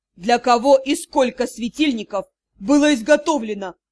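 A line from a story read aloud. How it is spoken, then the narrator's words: Growled. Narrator (Russian): рыкнул на меня Юрао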